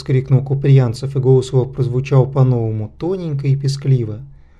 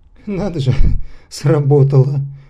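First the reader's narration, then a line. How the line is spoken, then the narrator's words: Thin, high giggling. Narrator (Russian): тоненькое хихиканье Александра Ивановича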